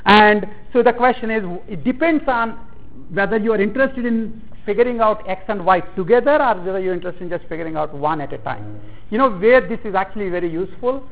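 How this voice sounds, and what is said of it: Speaker's own distinctive accent. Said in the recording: “my own inimitable accent”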